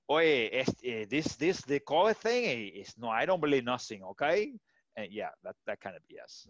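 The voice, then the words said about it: Put-on Cuban accent. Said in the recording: “That was another good Dutch accent right there... Nah, Cuban. but was Cuban accent”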